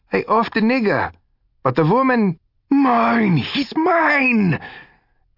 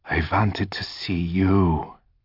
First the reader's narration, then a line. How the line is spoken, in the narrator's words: Mackie whispered it like a lover